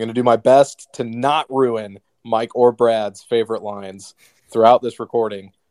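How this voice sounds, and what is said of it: Usual voice. Nothing is said of it.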